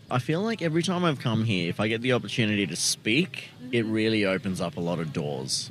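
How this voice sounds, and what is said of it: Australian accent. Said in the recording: “you have an accent ... Australia? ... Bang on.”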